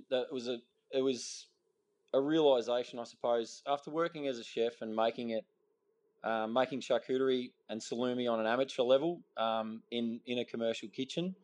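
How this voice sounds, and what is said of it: Australian accent. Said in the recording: “this accent comes from living in Western Victoria for most of your life. I can't get rid of it.”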